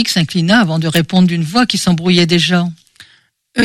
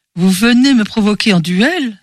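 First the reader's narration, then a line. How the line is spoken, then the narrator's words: Exclaimed. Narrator (French): s'exclama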